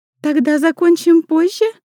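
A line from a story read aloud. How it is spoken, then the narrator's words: Thin little voice. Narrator (Russian): Тоненьким голоском спрашивает она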